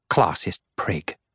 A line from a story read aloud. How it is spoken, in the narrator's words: Megara mutters